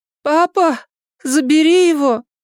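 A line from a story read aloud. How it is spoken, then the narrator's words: Near moan. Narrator (Russian): почти простонала Элли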